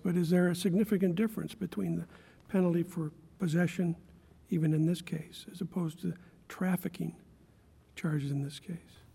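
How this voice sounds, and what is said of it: Raspy voice. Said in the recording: “sorry for my raspy voice”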